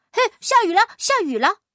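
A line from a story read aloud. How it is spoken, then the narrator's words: Big rat yelling wildly. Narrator (Chinese): 大个子老鼠乱叫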